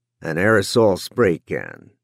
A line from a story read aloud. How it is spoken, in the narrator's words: Don Denny said dryly